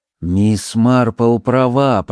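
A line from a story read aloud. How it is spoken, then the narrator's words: Muttering. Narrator (Russian): пробормотала миссис Бантри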